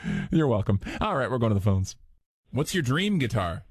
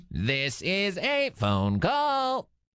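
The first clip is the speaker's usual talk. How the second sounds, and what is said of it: Robot voice. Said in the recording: “doing a little robot voice.”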